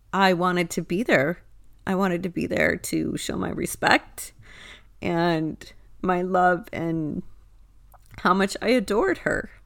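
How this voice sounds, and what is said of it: Choked-up, emotional voice. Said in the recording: “I'm even getting choked up about it”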